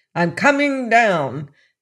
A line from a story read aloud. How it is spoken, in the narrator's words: His curiosity got the better of him, snapped out the words